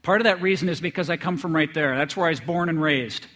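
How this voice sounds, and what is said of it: North Dakota American accent. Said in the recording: “I think I have a strange accent ... I'm actually from the other Grand Forks, North Dakota, so some people joke about I have an accent.”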